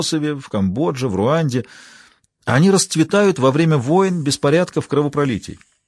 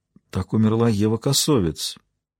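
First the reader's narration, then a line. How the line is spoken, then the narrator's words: Quiet. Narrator (Russian): тихо проговорила Маура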